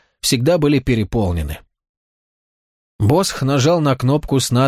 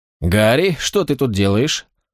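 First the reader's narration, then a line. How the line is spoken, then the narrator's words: Casual tone. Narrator (Russian): Вопрос был задан небрежным тоном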